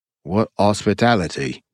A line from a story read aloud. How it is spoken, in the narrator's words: said dryly